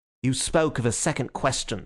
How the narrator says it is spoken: snapped Gregory

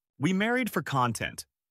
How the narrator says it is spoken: he said

